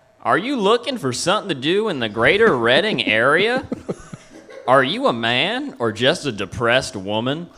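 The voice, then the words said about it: Put-on Kentucky accent. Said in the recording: “this bit includes an accent, and I can do it because I was born in Kentucky”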